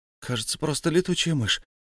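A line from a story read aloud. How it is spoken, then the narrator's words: Confused mumble. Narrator (Russian): растерянно пробормотал Бильбо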